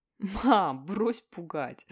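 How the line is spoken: Laughing. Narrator (Russian): рассмеялся я

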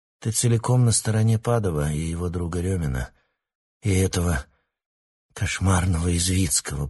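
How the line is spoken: Muttering. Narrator (Russian): пробормотал Алексей

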